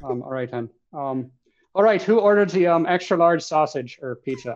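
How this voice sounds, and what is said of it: Put-on Irish accent. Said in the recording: “say that line, who ordered the extra sausage, but with an Irish accent.”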